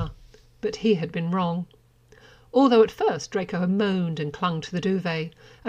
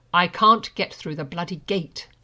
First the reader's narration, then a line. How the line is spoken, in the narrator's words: he snapped